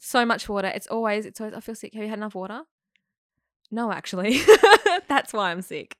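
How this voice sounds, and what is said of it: British-sounding twang. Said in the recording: “Sounds very British twang, like European.”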